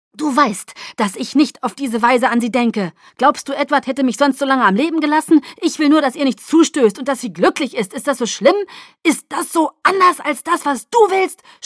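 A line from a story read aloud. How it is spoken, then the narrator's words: Shouting at someone. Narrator (German): schrie er mich an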